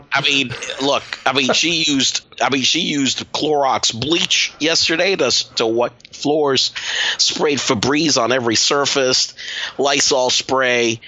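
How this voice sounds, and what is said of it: Congested voice from a cold. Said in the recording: “I have a cold, okay? So I have congested.”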